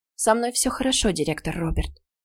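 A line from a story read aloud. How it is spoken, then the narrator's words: Quiet reply. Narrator (Russian): тихо ответила Ула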